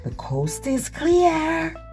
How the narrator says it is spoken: Cornelius shouted

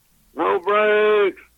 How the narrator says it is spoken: hollered

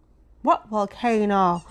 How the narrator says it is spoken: said the king, looking up anxiously

